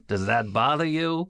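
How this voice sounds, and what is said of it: Imitates another person's voice. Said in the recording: “That's my Larry King impression.”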